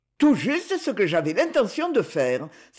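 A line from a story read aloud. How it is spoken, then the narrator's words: Delighted exclamation. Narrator (French): s'écria Rémy enchanté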